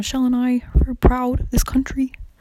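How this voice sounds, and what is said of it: Poor imitation of another person's voice. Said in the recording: “Barack Obama impression ... I can't do it now. Like it's so bad.”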